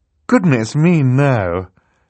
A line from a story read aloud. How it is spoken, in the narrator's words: Justice Strauss said